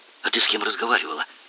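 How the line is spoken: Whispered question. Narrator (Russian): шепотом спросил он

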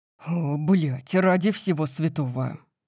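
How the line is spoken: Muttering. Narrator (Russian): Пробормотал Дариус

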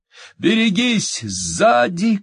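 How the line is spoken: Shouted. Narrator (Russian): крикнул Пол

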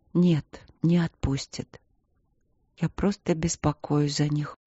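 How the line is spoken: Quiet. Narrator (Russian): тихо произнесла Аня

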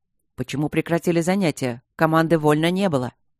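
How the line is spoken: Barked. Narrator (Russian): рявкнул Мариан

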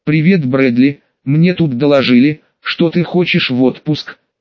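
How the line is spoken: Neutral calm tone. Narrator (Russian): начал разговор довольно нейтральным и спокойным тоном Сакадзуки

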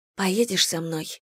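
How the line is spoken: Whisper in ear. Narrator (Russian): шепнула Слойны мне на ухо

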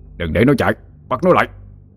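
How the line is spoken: Urgent shouting. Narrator (Vietnamese): Ông Nghĩa hét lên

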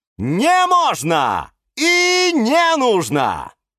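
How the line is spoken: Exclamation. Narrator (Russian): воскликнул Эдуард

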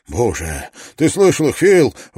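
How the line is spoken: Excited exclamation. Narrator (Russian): возбужденно воскликнул Барретт

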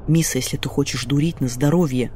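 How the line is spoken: Whispered, in sister's voice. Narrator (Russian): прошептала я, снова услышав проклятый голос старшей сестры, прорезавшийся у меня в такие моменты помимо воли

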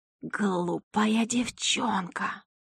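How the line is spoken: Hissing. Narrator (Russian): шипела главная среди них

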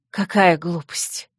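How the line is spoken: Scornful snort. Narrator (Russian): фыркнула женщина

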